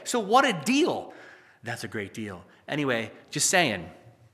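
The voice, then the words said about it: Imitates another person's voice. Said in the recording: “That was my Trump impression. Sorry, it was bad, I guess.”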